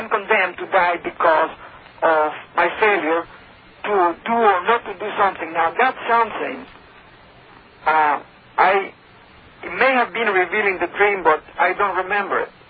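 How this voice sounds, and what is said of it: Speaks with a foreign accent. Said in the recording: “There's an accent there”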